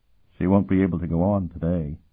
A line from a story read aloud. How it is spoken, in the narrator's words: the squire said quietly